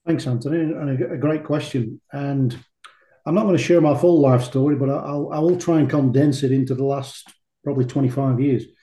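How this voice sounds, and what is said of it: Non-Australian English accent. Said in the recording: “we can detect from your accent that you're not born and bred in Australia”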